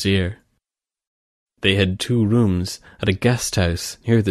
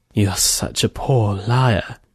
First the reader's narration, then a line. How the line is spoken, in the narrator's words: whispered